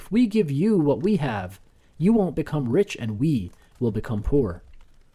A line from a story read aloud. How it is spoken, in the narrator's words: Habib shouted impatiently